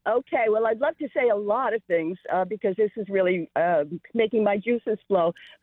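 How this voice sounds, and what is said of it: New York accent. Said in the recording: “I have a New York accent... We love New York accents.”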